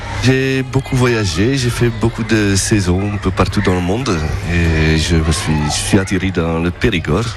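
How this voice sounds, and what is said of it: Flemish Belgian accent in French. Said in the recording (French): “Avec un très joli accent qui arrive du nord, il me semble. ... je suis flamand belge.”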